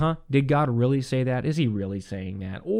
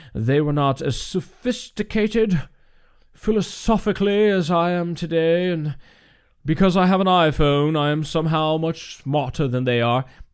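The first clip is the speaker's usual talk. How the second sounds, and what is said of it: Put-on British accent. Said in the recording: “Every time you get smart, you always get a British accent.”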